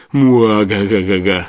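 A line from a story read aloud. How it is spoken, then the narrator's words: Rolling sinister laughter. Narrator (Russian): с раскатами мрачного хохота появился Деменко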